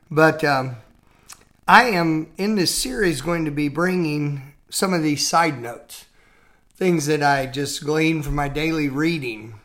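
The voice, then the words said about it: Weak, tired speaking voice. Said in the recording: “forgive my voice a little bit. I'm recording this after a Sunday evening service, so my voice is a little weak.”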